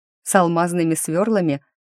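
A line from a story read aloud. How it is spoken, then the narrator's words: Snort. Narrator (Russian): фыркнула я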